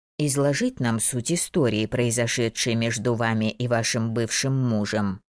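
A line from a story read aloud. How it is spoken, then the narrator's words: Even voice. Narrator (Russian): ровным голосом продолжала Дороти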